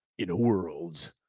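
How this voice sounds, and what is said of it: Dramatic movie trailer announcer voice. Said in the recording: “the graphics sound like a movie announcer ... I don't know why I just did that with my voice.”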